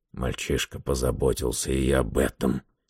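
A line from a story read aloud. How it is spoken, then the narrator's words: Gruff mutter. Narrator (Russian): буркнул Гэррот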